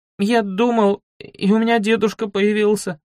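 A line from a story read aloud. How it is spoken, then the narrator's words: Sobbing. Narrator (Russian): Сквозь всхлипы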